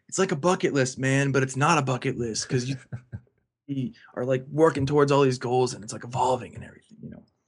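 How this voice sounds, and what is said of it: Imitates another person's voice, badly. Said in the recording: “that was ... impersonation of him ... That's like a horrible impersonation of Joel. He's got this really deep voice”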